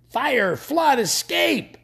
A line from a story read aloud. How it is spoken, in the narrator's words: the other screamed